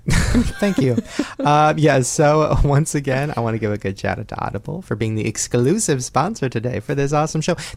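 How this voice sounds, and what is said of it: Hoarse, nearly lost voice. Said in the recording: “my voice is like gone right now from VidCon. ... It really is.”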